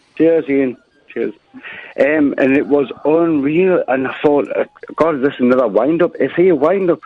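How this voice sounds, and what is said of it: Newcastle accent. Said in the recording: “Can you understand a Newcastle accent?”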